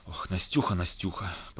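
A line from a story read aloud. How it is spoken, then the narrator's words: Whispered. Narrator (Russian): прошептал он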